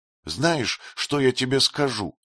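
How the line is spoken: Tearful whisper. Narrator (Russian): сквозь слезы прошептала Мукетта

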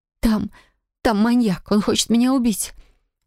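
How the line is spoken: Sobbing whisper. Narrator (Russian): Со всхлипом прошептала я

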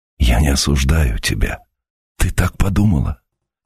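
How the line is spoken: Breathless tender whisper. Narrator (Russian): выговорил шепотом, задохнувшись от нежной жалости к ней

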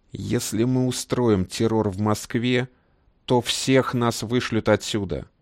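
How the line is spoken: Restrained, through gritted teeth. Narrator (Russian): сдерживаясь, процедил Магомед

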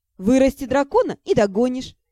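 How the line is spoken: Laughing. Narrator (Russian): засмеялась я

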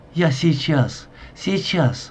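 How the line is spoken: Whispered shouting. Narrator (Russian): выкрикивая шепотом

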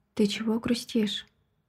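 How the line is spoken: Quiet question. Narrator (Russian): Тихо спрашивает Майкл

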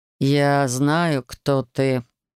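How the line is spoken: Strange voice, emphatic. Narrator (Russian): не своим голосом припечатал он

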